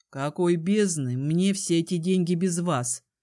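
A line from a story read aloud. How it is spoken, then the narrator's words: Grumbling. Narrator (Russian): проворчал Кай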